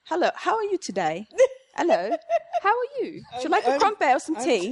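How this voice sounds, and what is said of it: Put-on British accent. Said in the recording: “I can do a British accent ... all of a sudden I'm like British accent”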